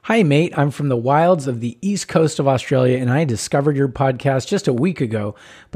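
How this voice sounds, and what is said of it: American accent. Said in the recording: “I'm going to do it with my American accent because I'll butcher the Australian”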